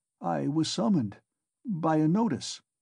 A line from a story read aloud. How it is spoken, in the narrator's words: Raskolnikov faltered